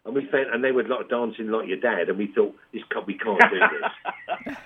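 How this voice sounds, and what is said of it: London accent. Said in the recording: “I've got a London accent, you know, it's quite unusual these days to have one”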